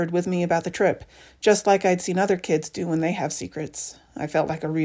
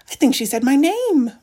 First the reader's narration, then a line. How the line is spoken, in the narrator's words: Rose exclaims